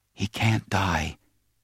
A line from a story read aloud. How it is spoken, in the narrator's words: she whispered